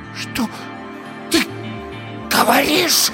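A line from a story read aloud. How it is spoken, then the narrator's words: Hoarse, frightening whisper. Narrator (Russian): Хриплый шепот Ирины был страшнее любого крика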